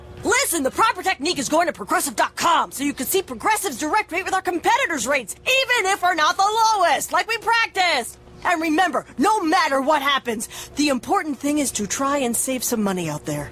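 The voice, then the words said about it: Pep-talking sports coach voice. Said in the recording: “this is my impression of a coach giving the ultimate pep talk”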